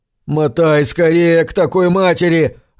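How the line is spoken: Yelling. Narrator (Russian): орал Курт

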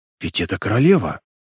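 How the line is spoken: Bewildered whisper. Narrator (Russian): шепнул он в крайнем недоумении

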